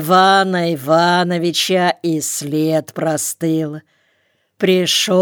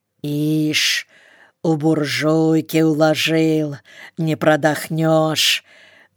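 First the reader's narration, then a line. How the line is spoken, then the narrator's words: Grumbling. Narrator (Russian): Заворчал он на Константина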